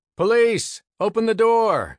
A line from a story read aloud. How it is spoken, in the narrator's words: he banged on the front door and shouted